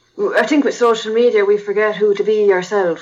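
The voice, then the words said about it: Speaks with a noticeable accent. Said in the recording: “I have my own fucking accent.”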